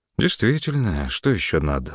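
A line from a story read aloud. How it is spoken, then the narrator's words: Count sighing. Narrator (Russian): вздохнул граф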